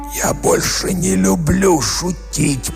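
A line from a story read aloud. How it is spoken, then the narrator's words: Hoarse rasp. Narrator (Russian): прохрипел он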